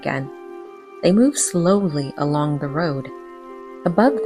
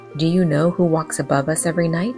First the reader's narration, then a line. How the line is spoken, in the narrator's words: she asked